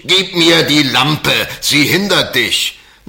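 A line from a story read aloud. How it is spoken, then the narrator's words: Impatient wizard shouting. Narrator (German): der Zauberer rief ungeduldig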